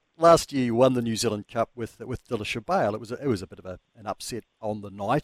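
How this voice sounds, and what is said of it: Noticeable accent. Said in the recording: “I'm listening to your accents. I love them.”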